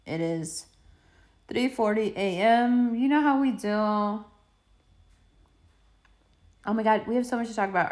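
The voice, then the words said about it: Croaky, frog-in-throat late-night voice. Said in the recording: “this is my it is the middle of the night voice... I know I sound like I have a frog in my throat... I wake up sounding very different.”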